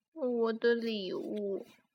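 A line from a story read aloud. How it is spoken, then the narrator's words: Dejected muttering to self. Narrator (Chinese): 沮丧的喃喃自语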